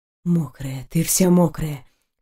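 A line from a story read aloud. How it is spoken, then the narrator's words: Hoarse growl. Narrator (Russian): Хрипло прорычал он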